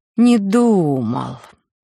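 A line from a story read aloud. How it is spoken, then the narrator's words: Mocking drawl. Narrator (Russian): протянула я насмешливо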